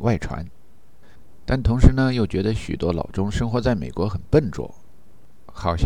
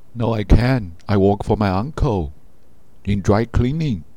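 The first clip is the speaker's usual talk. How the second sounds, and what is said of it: Heavy put-on Chinese accent in English. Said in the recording (Chinese): “故意带着浓浓的华人口音逗逗他，把他的名字发音成伊克豆，按照美国剧本中的中国人来演自己的角色”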